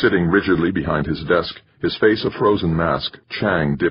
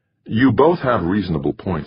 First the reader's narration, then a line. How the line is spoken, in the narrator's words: he said